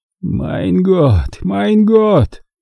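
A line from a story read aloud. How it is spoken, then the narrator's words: Sigh. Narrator (Russian): вновь вздохнул Готлеб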